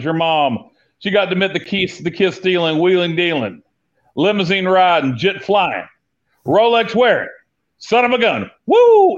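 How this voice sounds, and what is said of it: Nature Boy wrestler impression. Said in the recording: “That was a great impression right there.”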